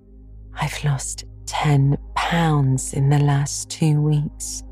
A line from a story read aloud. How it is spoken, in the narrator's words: sighed Jane